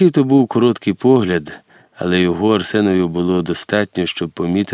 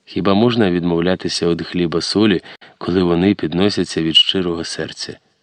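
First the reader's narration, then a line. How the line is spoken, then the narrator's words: Soft, smiling woman. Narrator (Ukrainian): усміхнулася, тихо проказала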